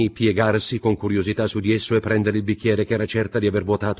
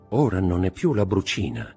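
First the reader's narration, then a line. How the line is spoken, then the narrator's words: Murmured. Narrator (Italian): mormorò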